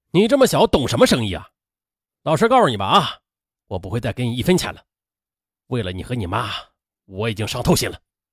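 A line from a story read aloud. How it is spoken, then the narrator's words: Furious outburst. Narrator (Chinese): 刘天全呢，则先是被儿子的撒谎给激怒了，一听二十万更是大发雷霆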